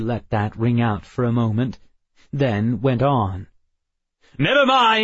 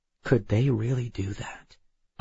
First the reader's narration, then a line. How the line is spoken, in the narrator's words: I whispered to Emma